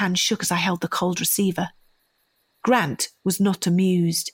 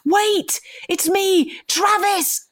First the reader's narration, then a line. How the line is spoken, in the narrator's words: screamed hysterically into the receiver